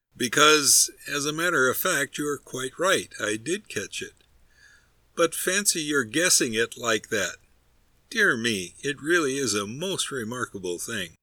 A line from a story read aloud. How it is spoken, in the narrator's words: answered the stolid stranger, laughing